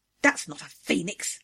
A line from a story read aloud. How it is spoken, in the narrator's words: she growled